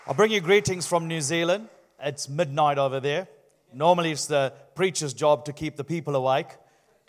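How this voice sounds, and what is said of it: Sri Lankan New Zealand accent. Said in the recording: “my Sri Lankan Kiwi heavenly accent”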